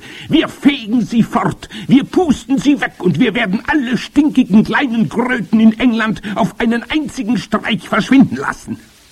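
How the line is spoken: Witch thundering. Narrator (German): donnerte die Hoch- und Großmeisterhexe

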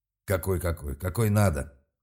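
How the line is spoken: Snapping back. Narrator (Russian): огрызнулся Серж

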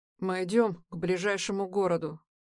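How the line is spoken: Muffled, suppressed irritation. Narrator (Russian): говорит Аксель глухо, будто проглатывая раздражение

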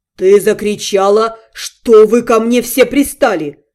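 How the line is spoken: Menacing hiss. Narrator (Russian): Зловеще прошипел Вашарий

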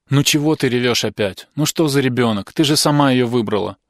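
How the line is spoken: Mother grumbling. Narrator (Russian): ворчала мать

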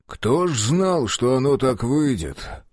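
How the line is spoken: Sighing police chief. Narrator (Russian): вздохнул начальник УГРО

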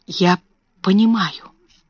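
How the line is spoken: Quiet, choked reply. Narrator (Russian): тихо ответила Сара, как будто проглотила что-то, стоявшее у нее в горле

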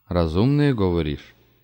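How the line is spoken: Snort. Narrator (Russian): хмыкнул Вишняк

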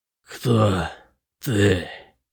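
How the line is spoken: Growling. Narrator (Russian): прорычал

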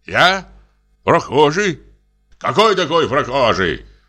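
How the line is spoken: Angry shout masking fear. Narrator (Russian): Сердито кричит сторож, желая замаскировать криком свой страх

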